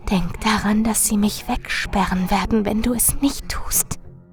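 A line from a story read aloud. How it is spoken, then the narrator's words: Urgent whisper. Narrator (German): Doch Marilyn flüsterte eindringlich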